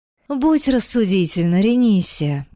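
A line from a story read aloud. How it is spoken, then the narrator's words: Feigned sigh. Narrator (Russian): притворно вздохнул Альрам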